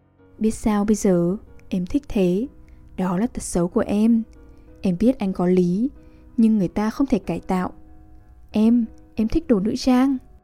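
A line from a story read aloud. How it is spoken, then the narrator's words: Gentle smiling reply. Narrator (Vietnamese): nàng mỉm cười dịu dàng và đáp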